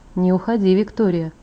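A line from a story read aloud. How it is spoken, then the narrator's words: Hypnotic tone. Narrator (Russian): проговорил он тем же гипнотизирующим тоном, что и раньше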